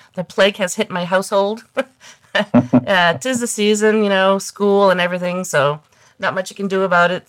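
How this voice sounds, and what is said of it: Congested, under-the-weather voice. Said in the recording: “As you can tell by my voice, I'm a little under the weather. ... I'll take a little congestion over that anytime.”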